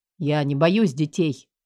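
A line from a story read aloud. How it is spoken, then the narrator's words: Irritated snap. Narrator (Russian): огрызнулся Макс с явной досадой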